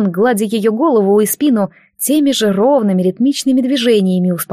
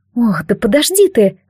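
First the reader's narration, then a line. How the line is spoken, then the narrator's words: Flustered smiling plea. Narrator (Russian): взмолилась она, глядя растерянно, но почему-то улыбаясь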